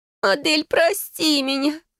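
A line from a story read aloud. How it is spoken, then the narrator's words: Tearful choking moan. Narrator (Russian): Захлебываясь слезами, простонала она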